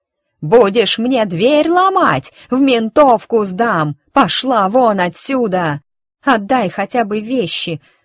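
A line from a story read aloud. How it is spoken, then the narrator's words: Scream at top of lungs. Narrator (Russian): выворачивая легкие, заорала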